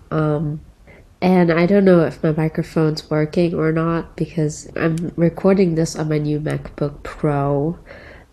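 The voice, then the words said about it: Sick-sounding voice. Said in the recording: “I'm sick, as you can tell by my voice”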